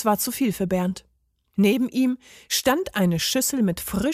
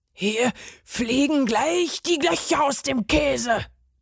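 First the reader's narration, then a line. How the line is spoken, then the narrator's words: Furious roaring. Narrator (German): brüllte der Parmesan fuchsteufelswild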